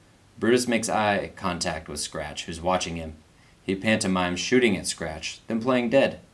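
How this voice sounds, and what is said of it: Usual voice. Nothing is said of it.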